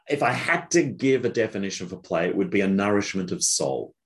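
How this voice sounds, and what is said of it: Australian accent. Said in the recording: “As you can probably tell from his accent, ... is Australian.”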